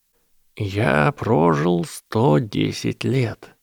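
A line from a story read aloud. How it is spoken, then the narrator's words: Quiet wizard's voice. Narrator (Russian): тихо сказал волшебник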